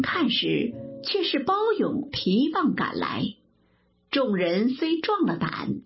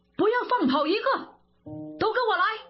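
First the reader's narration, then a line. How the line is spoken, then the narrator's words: Loud roar. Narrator (Chinese): 忽听一声大喝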